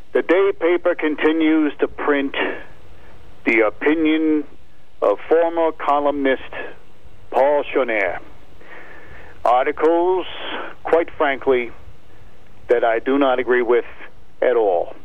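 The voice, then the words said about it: Peter Falk as Columbo impression. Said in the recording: “my impersonation of Peter Falk as Columbo”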